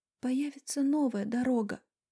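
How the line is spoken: Barely audible whisper. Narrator (Russian): едва слышно прошептала Вика

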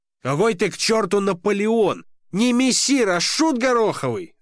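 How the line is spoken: Shouting. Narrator (Russian): закричал он

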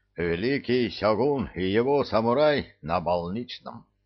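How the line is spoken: Reluctant mumble. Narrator (Russian): неохотно пробурчал Сухимота Квазимота

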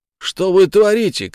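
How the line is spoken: Goalkeeper shouting. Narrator (Russian): крикнул защитником вратарь

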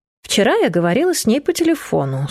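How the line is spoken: Dry reply. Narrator (Russian): сухо ответила

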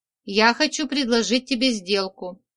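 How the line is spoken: Plain. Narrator (Russian): ответил он

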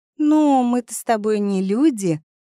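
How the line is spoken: Laughing. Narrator (Russian): Она засмеялась

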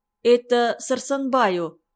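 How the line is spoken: Timid prompting. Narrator (Russian): робко подсказал ему Абрам

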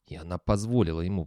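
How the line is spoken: Muttering. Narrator (Russian): бормотал

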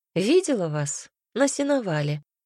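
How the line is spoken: Cheerful. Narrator (Russian): весело сказала Линд

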